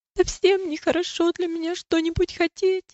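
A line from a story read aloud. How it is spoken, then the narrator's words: Sobbing reply. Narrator (Russian): ответила милость, всхлипывая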